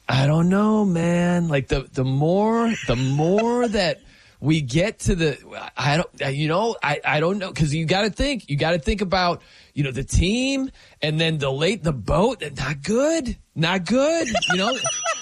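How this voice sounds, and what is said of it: Imitates another person's voice. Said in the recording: “my Patty impression ... You got the mannerisms down”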